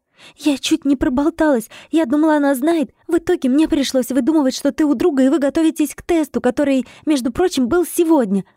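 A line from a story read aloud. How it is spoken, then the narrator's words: Agitated whisper. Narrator (Russian): взволнованно шептала она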